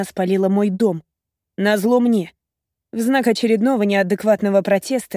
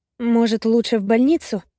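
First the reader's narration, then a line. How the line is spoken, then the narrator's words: Quiet question. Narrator (Russian): тихо спрашивает Лиза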